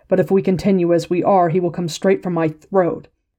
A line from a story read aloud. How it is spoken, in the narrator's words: he said harshly